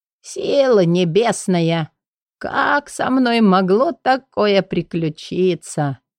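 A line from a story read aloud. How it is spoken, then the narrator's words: Muffled, strained complaining. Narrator (Russian): Он спрятал лицо в сморщенных ладонях и оттуда сдавленным голосом продолжал жаловаться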